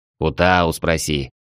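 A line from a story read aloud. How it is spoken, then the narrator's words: Angry snapping snake. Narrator (Russian): зло огрызнулся змей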